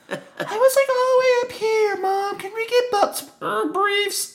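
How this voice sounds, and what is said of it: High-pitched, cracking pubescent voice. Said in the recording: “my voice cracked ... that's exactly how you sound, because I'm sure you were hitting puberty at that time”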